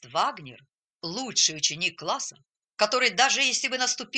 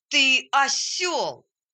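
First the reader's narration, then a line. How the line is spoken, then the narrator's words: Shouting. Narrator (Russian): закричал на него врач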